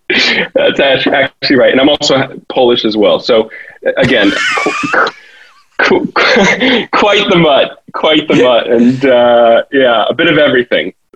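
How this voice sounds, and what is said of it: American accent. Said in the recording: “you have an American accent”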